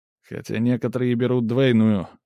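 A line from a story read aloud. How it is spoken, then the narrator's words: Snide remark, guest. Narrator (Russian): ехидно замечает кто-то из гостей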